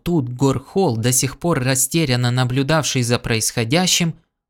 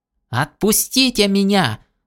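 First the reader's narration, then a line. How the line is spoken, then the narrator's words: Indignant yell. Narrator (Russian): завопил возмущенно Лунд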